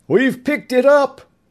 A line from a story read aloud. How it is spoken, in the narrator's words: shouted a radar man